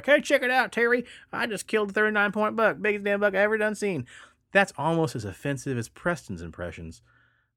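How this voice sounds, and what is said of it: Put-on Southern American accent. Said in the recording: “It's a pretty good Southern accent.”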